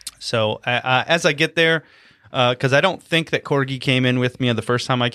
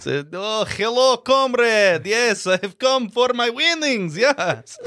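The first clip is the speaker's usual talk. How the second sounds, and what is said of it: Put-on Russian accent. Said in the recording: “what is Vane's dumb accent? Is it Russian? ... Russian, yeah.”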